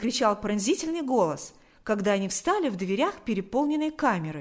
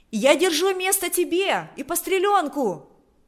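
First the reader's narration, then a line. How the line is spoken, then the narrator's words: Shouting woman. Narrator (Russian): кричала она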